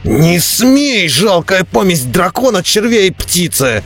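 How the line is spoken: Desperate howl. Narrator (Russian): взвыл Бреннер, стараясь выкарабкаться из огненного кольца и спастись от смертельного жара

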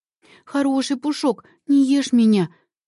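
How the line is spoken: Frightened pleading. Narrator (Russian): взмолилась Кларис от страха

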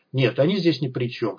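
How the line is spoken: Calm. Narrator (Russian): спокойно ответил Бай

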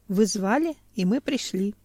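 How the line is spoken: Calm. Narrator (Russian): спокойно сказал бывший покойник

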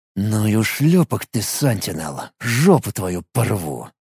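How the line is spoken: Angry, through clenched teeth. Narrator (Russian): Процедил сквозь сжатые от злости зубы

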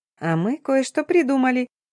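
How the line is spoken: Giggling friend. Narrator (Russian): Хихикнула подруга

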